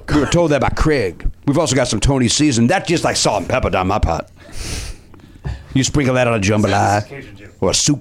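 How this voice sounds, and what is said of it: Inconsistent put-on Cajun accent. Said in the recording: “It's not a fully committed Cajun ... Kind of going in and out of character a little bit. ... you can never keep ... A consistent accent going for more than 10 seconds.”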